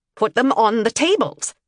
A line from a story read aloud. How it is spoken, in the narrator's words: ordered impatiently